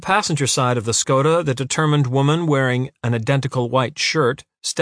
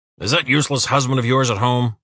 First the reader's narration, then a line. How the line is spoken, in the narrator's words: Uwe growled